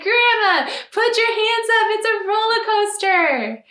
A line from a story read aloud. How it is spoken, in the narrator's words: laugh and say